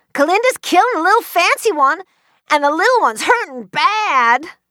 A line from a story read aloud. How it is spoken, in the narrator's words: Cass yelled